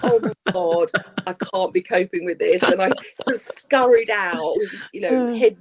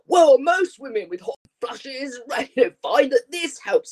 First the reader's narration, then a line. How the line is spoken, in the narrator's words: really loudly, booming across the shop